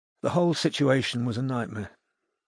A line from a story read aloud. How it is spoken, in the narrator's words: said Maya sadly